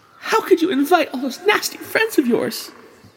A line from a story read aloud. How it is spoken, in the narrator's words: she sobbed